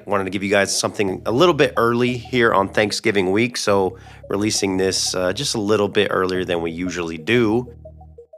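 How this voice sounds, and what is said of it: Voice sounding unusual, ill. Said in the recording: “my voice sounds totally different ... minus coughing like crazy at night ... Voice sounds a lot different than normal”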